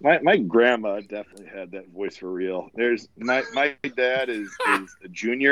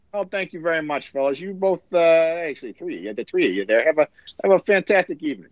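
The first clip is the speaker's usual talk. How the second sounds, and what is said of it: Imitates another person's voice. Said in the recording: “putting on a voice? ... He sounded like my dad.”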